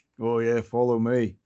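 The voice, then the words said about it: Put-on New Zealand accent, poorly done. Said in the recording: “my bad New Zealand accent”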